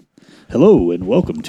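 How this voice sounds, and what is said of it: Radio announcer voice. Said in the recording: “radio voice”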